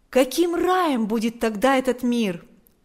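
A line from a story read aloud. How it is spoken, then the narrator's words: Exclaiming. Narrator (Russian): Павел воскликнул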